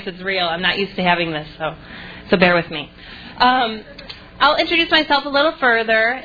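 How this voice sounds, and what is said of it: Shaky nervous voice. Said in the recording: “the microphone's making me nervous. So if you hear the shake in my voice”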